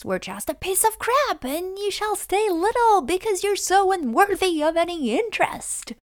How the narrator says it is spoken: a fake domina yelling at us

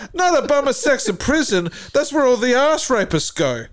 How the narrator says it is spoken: Hitler cried

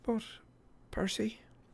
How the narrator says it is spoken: Calypso said gently

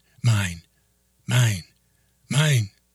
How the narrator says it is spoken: Cindy screamed

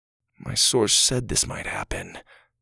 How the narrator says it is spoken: Doug said quietly

